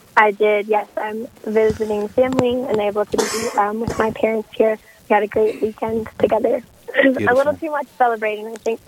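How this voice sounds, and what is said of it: Hoarse, strained voice. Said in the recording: “I'm sorry to lose my voice”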